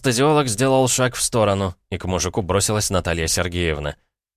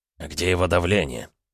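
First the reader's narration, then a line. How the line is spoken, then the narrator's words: Quiet question. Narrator (Russian): спросил негромко Глеб Леонидович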